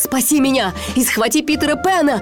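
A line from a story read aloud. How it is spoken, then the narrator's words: Shouted reply. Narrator (Russian): прокричал в ответ Крюк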